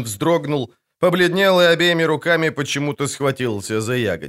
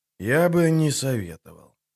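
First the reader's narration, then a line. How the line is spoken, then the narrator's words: Quiet. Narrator (Russian): тихо проговорил Геральт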